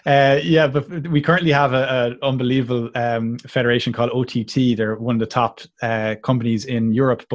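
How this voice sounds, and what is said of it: Melodic Irish accent. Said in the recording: “I love the Irish accent. I think it's I think it's the most melodic accent there is. I think it's beautiful.”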